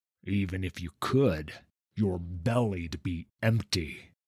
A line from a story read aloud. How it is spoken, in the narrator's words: sneered Vanis